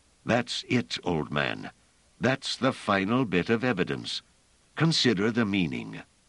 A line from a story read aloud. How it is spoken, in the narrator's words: Pellerat said eagerly